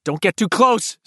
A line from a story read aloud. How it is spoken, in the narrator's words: Stan barked